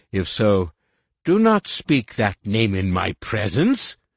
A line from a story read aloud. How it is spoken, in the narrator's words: Shimra interrupted sharply